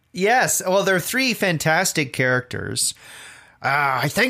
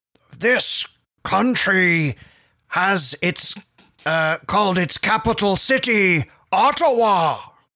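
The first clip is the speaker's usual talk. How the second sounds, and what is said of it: Imitates a TV character's voice. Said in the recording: “I can do an Odo impression. He sort of talks like that.”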